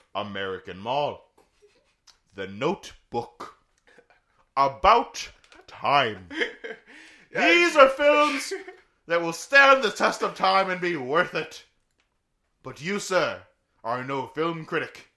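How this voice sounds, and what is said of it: Put-on film critic accent. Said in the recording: “I like your film critic accent.”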